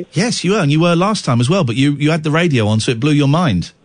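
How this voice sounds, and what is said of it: Posh-sounding accent. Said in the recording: “you sound posh. You sound posh.”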